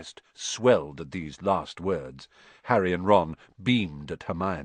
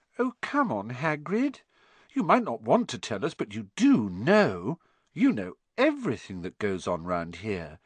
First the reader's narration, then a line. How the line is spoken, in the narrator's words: said Hermione in a warm, flattering voice